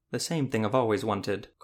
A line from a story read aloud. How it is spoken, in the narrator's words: Colden said quite calmly